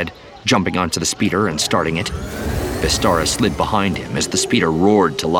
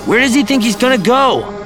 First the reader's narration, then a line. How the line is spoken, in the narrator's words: Ben asked rhetorically, yelling to be heard over the sound of the speeder bike